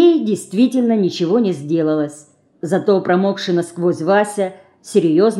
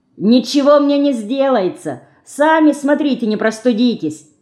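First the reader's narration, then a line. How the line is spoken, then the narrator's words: Shouted. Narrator (Russian): крикнула она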